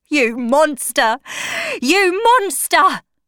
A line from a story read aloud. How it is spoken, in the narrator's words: cried Septimus, seeing human nature